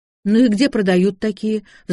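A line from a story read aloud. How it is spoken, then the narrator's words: Sighing. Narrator (Russian): вздохнул я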